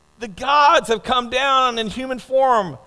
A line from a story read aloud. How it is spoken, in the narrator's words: the crowd, they shouted in Lyconian language